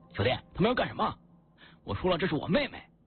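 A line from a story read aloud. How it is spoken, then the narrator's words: Angry shout. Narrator (Chinese): 陈玉有些愤怒的对我吼道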